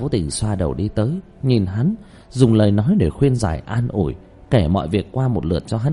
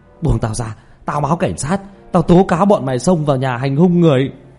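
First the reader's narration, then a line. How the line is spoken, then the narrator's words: Furious roar. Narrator (Vietnamese): Lưu Kế Toán gầm thét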